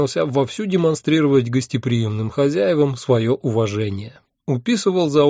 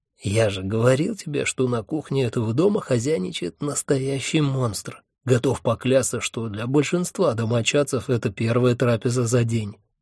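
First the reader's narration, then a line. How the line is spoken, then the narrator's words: Snide whisper. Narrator (Russian): ехидно шепнул мне Хехельф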